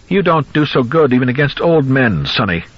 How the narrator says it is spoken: Goldman cried with cracked excitement

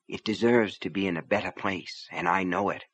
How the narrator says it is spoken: she said softly to Raider

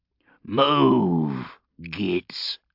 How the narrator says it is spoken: Stabscar grunted at the rest of the mob

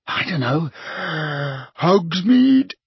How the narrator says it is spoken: suggested Ron, yawning

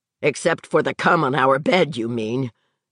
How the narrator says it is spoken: Vic said savagely

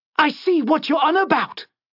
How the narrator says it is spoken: she shouted

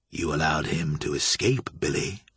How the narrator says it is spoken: said coldly

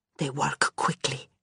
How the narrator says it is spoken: she murmured

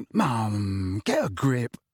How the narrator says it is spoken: he muttered

